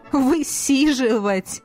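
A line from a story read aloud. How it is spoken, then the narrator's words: Laughing. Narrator (Russian): рассмеялся Наг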